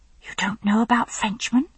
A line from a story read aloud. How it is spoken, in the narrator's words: She whispered, eyes wide and horrified